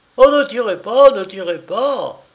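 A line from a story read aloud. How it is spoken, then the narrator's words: Exclaimed. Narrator (French): s'écria Denner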